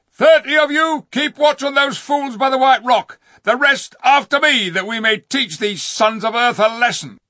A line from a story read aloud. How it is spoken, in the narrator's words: Rishta Tarkan's voice cried out